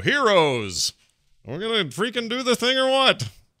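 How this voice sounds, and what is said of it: Bad impression of the Immortal. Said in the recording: “that's a bad impression of the Immortal.”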